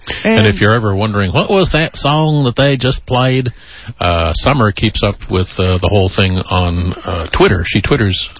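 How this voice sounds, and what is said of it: Put-on Southern accent. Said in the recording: “You're using a southern accent.”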